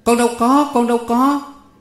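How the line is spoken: Cry out. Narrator (Vietnamese): Con Sửu kêu lên

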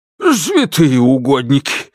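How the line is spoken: Frightened exhale. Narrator (Russian): выдохнул Александр Петрович, испуганно

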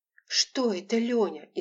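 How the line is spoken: Frightened whisper. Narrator (Russian): испуганно прошептала Лола

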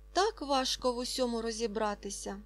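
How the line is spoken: Sighing speech. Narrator (Ukrainian): сказала Фріда і зітхнула

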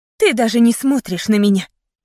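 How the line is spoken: Angry blurt. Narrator (Russian): Сердито выпалила

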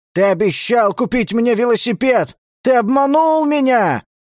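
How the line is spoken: Shouting. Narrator (Russian): кричал я

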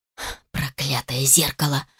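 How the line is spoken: Hissing. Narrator (Russian): шипела Сара

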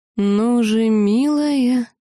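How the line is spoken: Slimy, nasty tone. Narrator (Russian): липким мерзким тоном продолжил Сарантус

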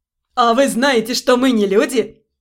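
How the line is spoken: Asking after coughing, laughing. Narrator (Russian): Откашлившись и просмеявшись, спросил Ремир

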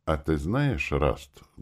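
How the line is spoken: Thoughtful. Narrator (Russian): голос Вуга при этом звучал задумчиво

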